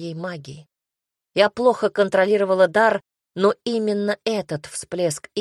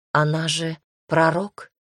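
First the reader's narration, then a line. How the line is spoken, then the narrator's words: Puzzled whisper. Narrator (Russian): недоуменно прошептала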